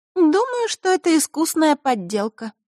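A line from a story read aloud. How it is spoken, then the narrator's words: Sad. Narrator (Russian): грустно заявила Маришка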